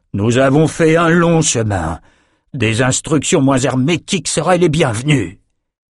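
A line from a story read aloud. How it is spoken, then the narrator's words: Shouted. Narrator (French): cria-t-il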